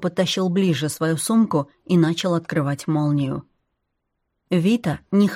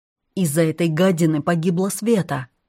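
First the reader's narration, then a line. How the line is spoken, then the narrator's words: Angry. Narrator (Russian): сердито сообщила Кира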